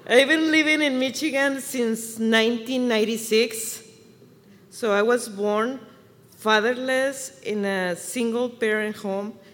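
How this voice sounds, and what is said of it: Mexican Spanish accent. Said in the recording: “I was born and raised in Chihuahua, Mexico, so you can hear the accent.”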